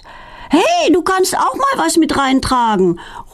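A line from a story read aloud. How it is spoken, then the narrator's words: Calling after someone. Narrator (German): ruft Philine ihr hinterher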